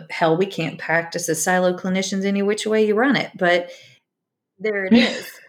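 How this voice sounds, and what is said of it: Virginia twang. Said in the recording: “twang came out. Oh my gosh, I cannot Virginia. I go home one weekend and the twang comes back.”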